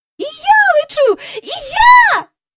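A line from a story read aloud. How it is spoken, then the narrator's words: Startled squeal. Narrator (Ukrainian): заверещала Джейн, несподівано відірвавшись від землі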